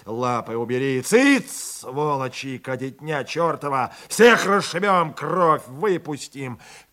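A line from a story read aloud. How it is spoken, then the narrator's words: Frantic shouting. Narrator (Russian): Кричал, уже сам не понимая, что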